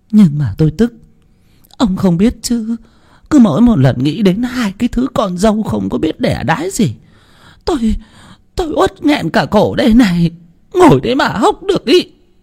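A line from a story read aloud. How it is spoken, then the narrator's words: Near tears. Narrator (Vietnamese): Bà Dân mếu máo, nói như sắp khóc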